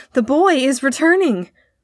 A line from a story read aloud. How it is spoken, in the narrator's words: cried a voice to other voices